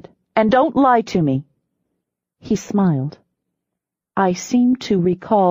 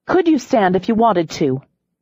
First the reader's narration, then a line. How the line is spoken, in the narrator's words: I said sharply